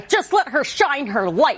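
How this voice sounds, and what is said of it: Impression of a fellow actress. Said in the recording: “that's such a good impression ... I'm a great mimic.”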